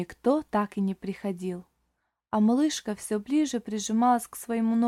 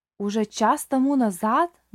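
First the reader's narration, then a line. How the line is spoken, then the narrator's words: Old man exclaiming. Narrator (Russian): воскликнул старик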